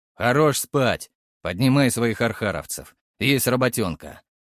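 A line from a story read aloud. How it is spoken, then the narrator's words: Growling. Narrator (Russian): прорычал Фрол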